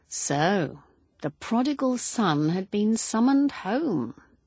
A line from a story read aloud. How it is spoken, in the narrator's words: he said